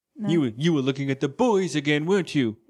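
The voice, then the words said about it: Cartoon character voice. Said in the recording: “my Stewie Griffin impression”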